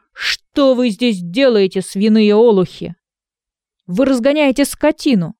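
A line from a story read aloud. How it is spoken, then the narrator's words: Shepherd shouting. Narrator (Russian): пастух и закричал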